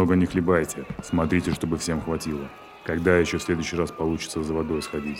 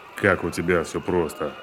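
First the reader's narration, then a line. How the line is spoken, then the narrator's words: Ironic snort. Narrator (Russian): Иронически хмыкнул Порфирьев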